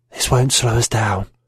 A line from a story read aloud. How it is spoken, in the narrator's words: She smiled, a red evil crescent, and whispered